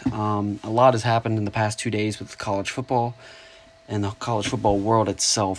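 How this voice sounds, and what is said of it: Slightly scratchy, tired voice. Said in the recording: “my voice sounds a little bit scratchy ... I'm kind of tired”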